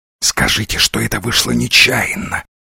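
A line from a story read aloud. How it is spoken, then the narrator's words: Whispering in English. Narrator (Russian): зашептал Дивайн по-английски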